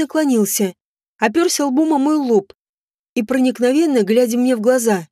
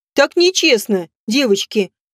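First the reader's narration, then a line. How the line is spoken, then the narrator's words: Laughing. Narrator (Russian): рассмеялся Эрван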